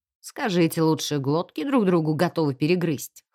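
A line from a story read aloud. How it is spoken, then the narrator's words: Wry snort. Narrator (Russian): хмыкнул он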